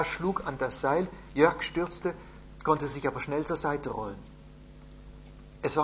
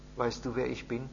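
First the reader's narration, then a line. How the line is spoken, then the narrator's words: Quiet question. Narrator (German): fragte er leise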